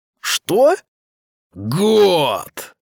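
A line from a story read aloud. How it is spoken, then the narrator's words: Thunderous roar. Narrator (Russian): проревел охотник так, что заколыхались воды подземного озера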